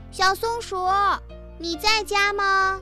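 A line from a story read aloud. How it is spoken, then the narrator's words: Hurried call. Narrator (Chinese): 于是他连忙叫了一声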